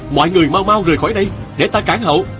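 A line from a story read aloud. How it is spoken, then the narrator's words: Urgent shout. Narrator (Vietnamese): Viên Thừa Chi la lên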